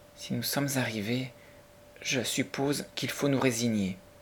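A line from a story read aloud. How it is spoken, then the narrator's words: Said softly. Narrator (French): dit-elle doucement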